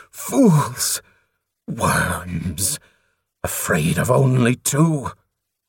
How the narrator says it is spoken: He spat

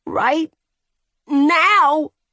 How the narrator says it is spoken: she screamed

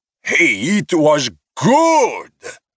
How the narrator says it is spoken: He shouted over an outburst of laughter and jeers

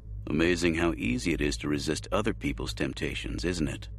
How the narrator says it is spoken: Jay said dryly

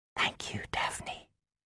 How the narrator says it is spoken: I whispered

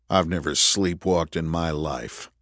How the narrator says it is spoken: Andrew said coldly

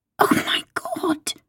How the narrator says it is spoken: She gasps

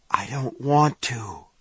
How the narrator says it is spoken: David whispered

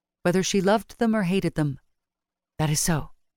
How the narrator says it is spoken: she said thickly

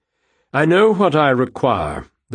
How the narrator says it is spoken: the bird said stiffly

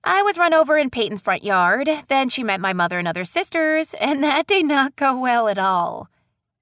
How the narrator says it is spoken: Ryan said with a laugh

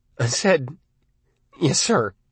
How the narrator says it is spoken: Arnie said in a trembling voice

